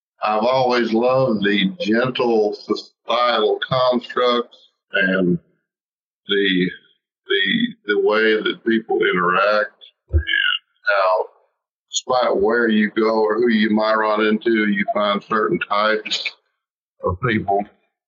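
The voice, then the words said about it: Southern American accent. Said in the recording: “my accent would tend to disagree, I'm not a born Southerner”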